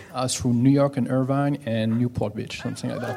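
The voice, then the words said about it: French accent. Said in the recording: “French. ... where's your accent from? ... Paris.”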